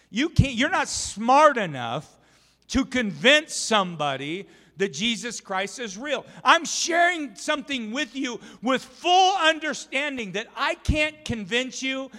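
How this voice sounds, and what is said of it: Raised, excited preaching voice. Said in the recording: “I get excited. I'm like, my voice is elevating.”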